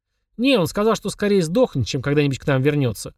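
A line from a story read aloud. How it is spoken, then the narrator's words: Snorting smirk. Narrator (Russian): хмыкнул Денис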